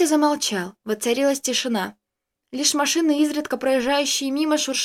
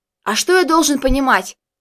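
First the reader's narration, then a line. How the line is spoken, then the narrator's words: Yelling. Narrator (Russian): заорал я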